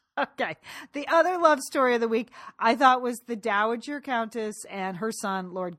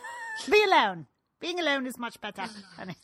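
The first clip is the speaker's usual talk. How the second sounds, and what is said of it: Very poor put-on British accent. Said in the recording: “That is a very poor British accent. ... The worst I've ever heard.”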